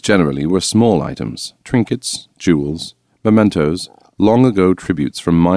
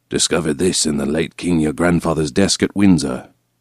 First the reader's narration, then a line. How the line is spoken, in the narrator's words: lean forward, whisper